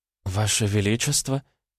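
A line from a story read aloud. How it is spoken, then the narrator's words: Uncertain, hesitant. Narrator (Russian): То ли спросила, то ли поздоровалась Васильева довольно неуверенно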